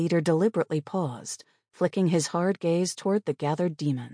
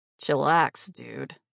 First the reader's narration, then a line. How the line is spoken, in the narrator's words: grumbled